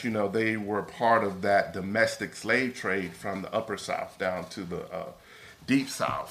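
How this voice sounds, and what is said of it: Mississippi Southern accent. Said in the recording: “I'm from Mississippi, as you probably can tell with my accent”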